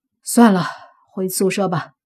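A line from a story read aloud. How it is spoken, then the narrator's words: Sighing. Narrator (Chinese): 叹了口气，莫凡说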